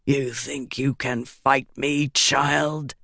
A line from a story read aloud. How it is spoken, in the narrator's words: He growled